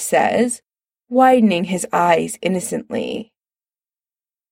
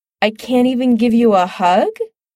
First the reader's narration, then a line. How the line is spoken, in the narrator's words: Chris asks, holding back a laugh